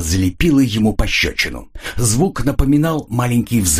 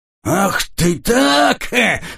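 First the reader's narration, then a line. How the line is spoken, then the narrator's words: Drunken roar. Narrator (Russian): взревел пьяный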